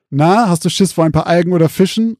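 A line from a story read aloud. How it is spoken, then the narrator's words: Teasing call. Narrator (German): rief David ihr zu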